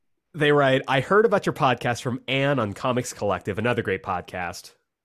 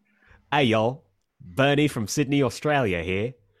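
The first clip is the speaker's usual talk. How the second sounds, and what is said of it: Attempted Australian accent. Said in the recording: “they put with an Aussie accent. I'm going to try this.”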